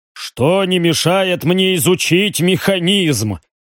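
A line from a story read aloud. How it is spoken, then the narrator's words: Amused snort. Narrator (Russian): хмыкнул Риган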